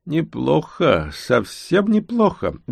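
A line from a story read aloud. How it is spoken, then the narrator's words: Cheerful chuckle from behind. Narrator (Russian): весело хохотнул за спиной целитель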